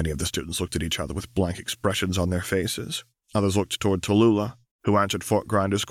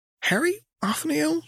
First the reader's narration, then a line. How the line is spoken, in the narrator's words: squeaked